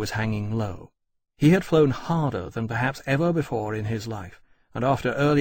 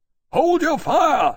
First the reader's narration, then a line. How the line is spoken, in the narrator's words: Lawrence bellowed out of his speaking trumpet